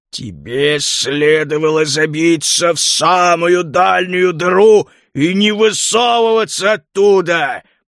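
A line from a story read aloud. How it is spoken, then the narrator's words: Growled. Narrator (Russian): прорычал Лютый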